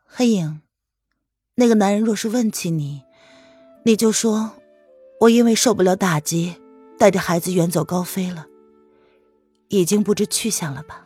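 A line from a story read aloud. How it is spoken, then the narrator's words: Sighing. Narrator (Chinese): 他叹了一口气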